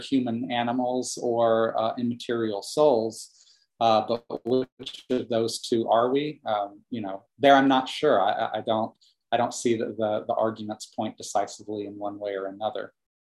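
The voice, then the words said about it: Regional American accent. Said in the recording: “I hear an accent ... But I hear an accent. ... I'm an Atlanta boy, born and raised.”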